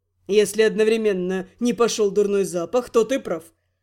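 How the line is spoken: Snide snort. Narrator (Russian): хмыкнул ехидный Рент

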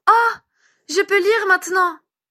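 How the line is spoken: Delighted child exclaiming. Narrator (French): s'exclama l'enfant découvrant son nom écrit en capitale

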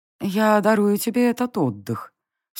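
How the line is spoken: Impassive, beautiful voice. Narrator (Russian): все тем же бесстрастным и прекрасным голосом молвила богиня

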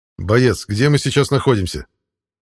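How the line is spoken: Menacing question. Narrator (Russian): Грозно спросил я

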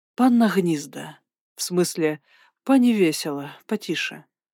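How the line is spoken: Quiet. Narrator (Russian): проговорил он же тихо

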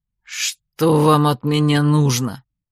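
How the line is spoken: Growled. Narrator (Russian): рыкнул Фроль

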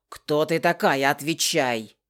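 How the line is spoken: Barked. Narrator (Russian): Рявкнул он

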